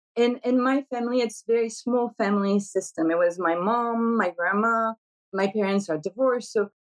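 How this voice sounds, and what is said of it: French accent. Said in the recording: “I'm French, and that's where the accent comes from”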